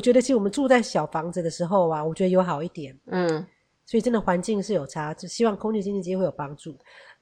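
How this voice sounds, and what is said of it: Nasal Taiwanese-accented Mandarin. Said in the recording (Chinese): “在台湾过敏久了，鼻子都有鼻音。像我也是 ... 有台湾腔，有鼻音啊”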